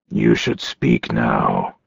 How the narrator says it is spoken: he said in a low voice

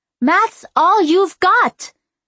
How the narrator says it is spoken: yelled

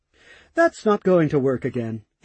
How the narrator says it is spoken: he calmly spoke

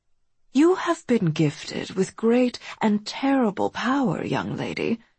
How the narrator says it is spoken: Mab said in an arch tone

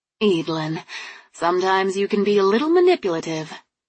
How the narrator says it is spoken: she sighed

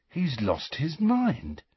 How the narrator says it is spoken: said Ron, in an almost awed voice

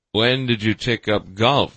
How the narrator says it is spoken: Van Damme asked, with a chuckle

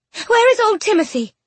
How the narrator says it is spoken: Penelope cried

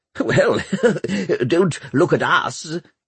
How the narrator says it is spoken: laughed Pomeroy

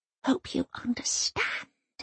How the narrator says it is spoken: Elsa whispers in the secret language

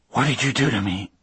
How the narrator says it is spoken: I whispered

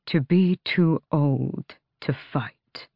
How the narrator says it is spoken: Darrow said quietly

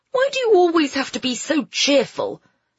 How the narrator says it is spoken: Phoebe snapped

